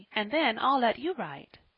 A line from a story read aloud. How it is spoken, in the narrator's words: said his mother, eagerly